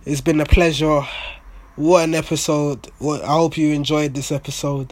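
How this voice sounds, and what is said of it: Strained, worn-out hoarse voice. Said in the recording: “My voice is gone. I'm going to have to take a Lemsip or something so that my voice recovers.”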